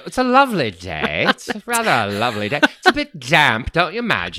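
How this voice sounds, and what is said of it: Fake British accent. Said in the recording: “let me hear your fake British accent”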